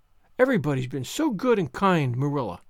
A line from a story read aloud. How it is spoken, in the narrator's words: sighed Anne happily